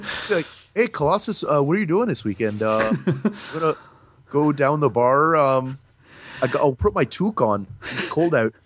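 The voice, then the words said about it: Put-on Canadian accent. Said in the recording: “Did you give Wolverine a Canadian accent? ... be all super Canuck”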